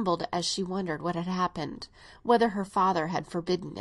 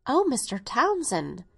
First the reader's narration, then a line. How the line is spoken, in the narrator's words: murmured Catherine